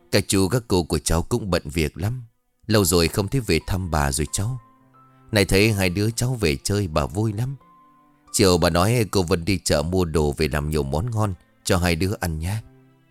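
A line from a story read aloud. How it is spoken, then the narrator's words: Sighing grandmother. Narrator (Vietnamese): Bà nội thở dài rồi đáp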